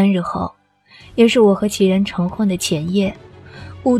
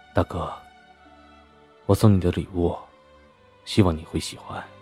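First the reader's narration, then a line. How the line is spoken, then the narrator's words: Low murmur. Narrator (Chinese): 齐然低声的喃喃道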